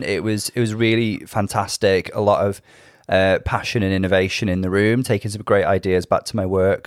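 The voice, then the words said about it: Slightly run-down, unwell-sounding voice. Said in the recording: “I sound a little different, ... I feel like I'm slightly run down.”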